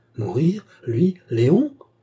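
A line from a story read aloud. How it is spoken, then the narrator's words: Frantic, bewildered exclamation. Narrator (French): s'écria Cerise hors d'elle-même et ne comprenant rien aux étranges paroles de son ravisseur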